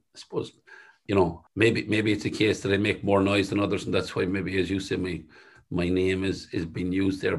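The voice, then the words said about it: Thick West of Ireland accent. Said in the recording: “my own voice and thick West of Ireland accent”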